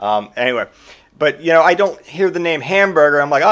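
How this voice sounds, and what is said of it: Usual voice. Nothing is said of it.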